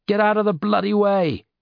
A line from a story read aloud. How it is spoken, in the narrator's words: Grace yelled in frustration